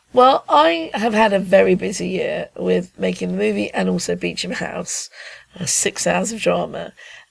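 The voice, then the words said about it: Tired, exhausted-sounding voice. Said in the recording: “I'm pretty exhausted, as you can hear in my voice.”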